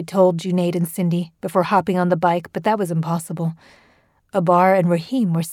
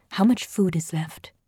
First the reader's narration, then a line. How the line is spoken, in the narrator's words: he said, then whispered to Tabinda